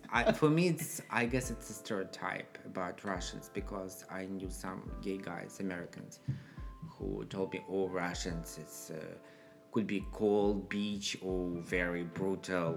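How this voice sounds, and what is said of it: Russian accent. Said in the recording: “you sounded like a sexy cat... I like the Russian accent.”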